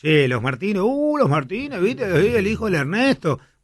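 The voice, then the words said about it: Imitates rural countryside speech. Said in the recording (Spanish): “estoy haciendo una imitación de una parte que de la gente más de campo adentro”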